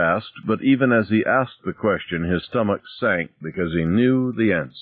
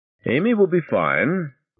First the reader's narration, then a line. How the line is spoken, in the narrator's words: Monroe said cheerfully